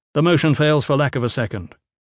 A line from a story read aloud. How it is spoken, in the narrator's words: Gavin said quickly